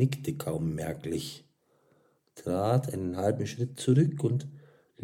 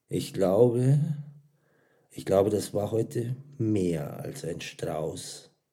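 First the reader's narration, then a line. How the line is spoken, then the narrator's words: Soft speech. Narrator (German): sagte er leise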